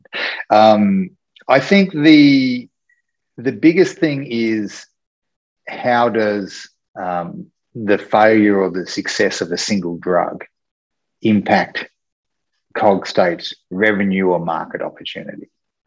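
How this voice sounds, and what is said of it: Speaks with a noticeable accent. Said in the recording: “my accent, which confuses a lot of people”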